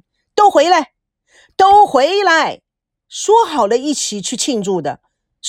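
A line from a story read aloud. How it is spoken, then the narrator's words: Angry loud command. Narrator (Chinese): 肚子都有点被气得鼓了起来，他大声地发出了老板的口令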